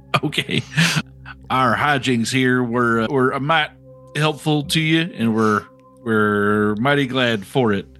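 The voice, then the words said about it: Put-on Southern accent. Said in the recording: “I don't know why I have a southern accent now.”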